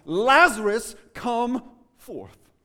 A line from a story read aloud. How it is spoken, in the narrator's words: the voice of God now cried out in Jesus Christ